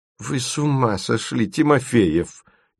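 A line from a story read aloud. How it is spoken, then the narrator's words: Displeased voice. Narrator (Russian): Недовольным голосом произнес Гуськов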